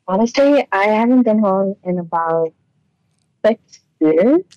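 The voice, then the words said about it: Bahamian accent. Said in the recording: “I'm impressed that you still have your accent.”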